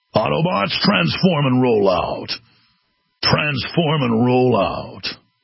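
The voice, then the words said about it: Optimus Prime impression. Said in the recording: “What about an Optimus Prime?”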